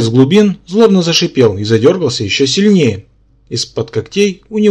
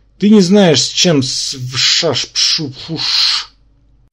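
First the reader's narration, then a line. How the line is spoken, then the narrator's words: Garbled hissing. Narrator (Russian): членораздельная речь тут же трансформировалась в невнятное шипение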